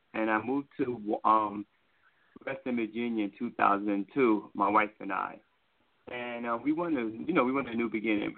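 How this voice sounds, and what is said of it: New York accent. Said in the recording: “I'm originally from New York City, guys. If you can't hear the accent, I'm from New York.”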